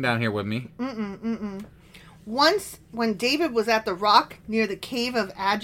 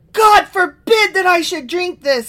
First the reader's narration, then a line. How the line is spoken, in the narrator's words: he exclaimed